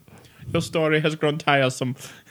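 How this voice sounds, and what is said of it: Effeminate German accent, Mike Myers line. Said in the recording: “He just goes, "Your story has grown tiresome." ... just in that effeminate German accent.”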